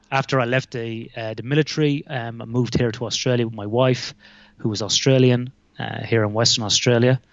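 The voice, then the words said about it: Irish accent. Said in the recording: “He sounds Irish. That's right. I am Irish.”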